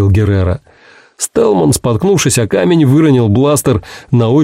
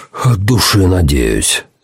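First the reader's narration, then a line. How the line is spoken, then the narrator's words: Breathed out. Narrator (Russian): выдохнул Пакстон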